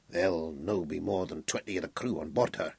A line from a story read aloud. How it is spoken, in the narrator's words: he muttered to himself